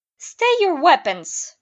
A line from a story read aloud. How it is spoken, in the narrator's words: called out